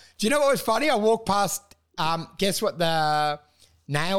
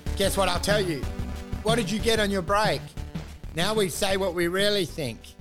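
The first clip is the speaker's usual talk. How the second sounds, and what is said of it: Put-on Vietnamese accent. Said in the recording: “I'm doing it all in a Vietnamese accent.”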